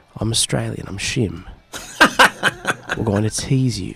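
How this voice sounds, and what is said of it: Put-on Australian accent drifting British. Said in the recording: “Do you want me to say it in an Australian accent? ... That got British at the end.”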